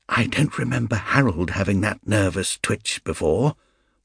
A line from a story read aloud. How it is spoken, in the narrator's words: whispered